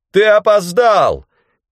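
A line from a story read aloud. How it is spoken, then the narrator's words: Shouting. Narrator (Russian): крикнул мне Бранд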